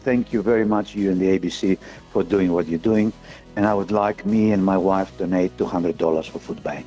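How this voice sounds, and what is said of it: Speaks with a noticeable accent. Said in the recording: “the guy with the accent”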